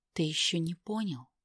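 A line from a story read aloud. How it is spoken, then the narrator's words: Quiet question. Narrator (Russian): тихо спросила Тамара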